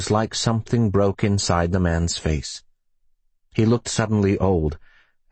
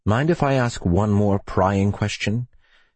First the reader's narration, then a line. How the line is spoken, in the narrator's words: smiled sadly